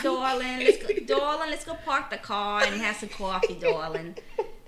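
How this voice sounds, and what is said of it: New Orleans accent, Boston-like. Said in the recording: “New Orleans accents are very much kind of, they sound a little bit like a Boston. ... New Jersey.”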